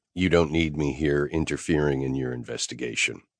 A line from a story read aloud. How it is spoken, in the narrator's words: I said flatly